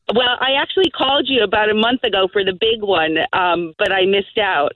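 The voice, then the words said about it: American New York accent. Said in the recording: “You don't sound very Irish. ... I'm from New York.”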